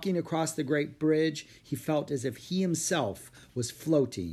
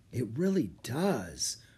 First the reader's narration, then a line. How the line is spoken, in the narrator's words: murmured Jack